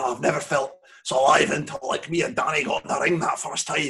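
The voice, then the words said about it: Put-on Scottish accent. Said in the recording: “I did a Scottish accent there.”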